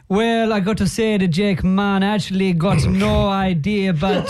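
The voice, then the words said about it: Bad put-on Rastafarian accent. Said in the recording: “Terrible Rastafarian accent there.”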